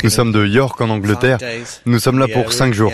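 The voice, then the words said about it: Slight English accent in French. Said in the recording (French): “Ils ont un petit accent.”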